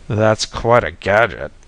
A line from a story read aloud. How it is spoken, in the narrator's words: I groaned